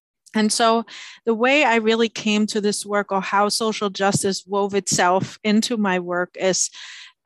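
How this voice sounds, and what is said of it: German accent. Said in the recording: “I grew up in Germany, and as you might detect from my accent”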